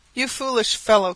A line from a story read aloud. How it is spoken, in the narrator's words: cried I, kicking with all my might to free myself